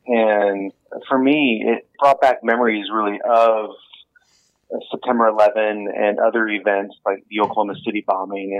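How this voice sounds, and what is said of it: American accent. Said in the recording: “you can probably hear from my voice, I'm not Kiwi. I'm American”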